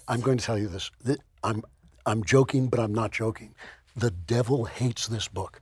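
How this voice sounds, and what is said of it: Hoarse, strained voice. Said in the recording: “you have laryngitis”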